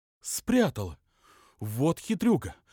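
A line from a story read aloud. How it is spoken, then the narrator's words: Indignant exclamation. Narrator (Russian): воскликнула возмущенная мать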